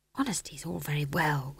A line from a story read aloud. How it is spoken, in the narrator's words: whispered McGrath wretchedly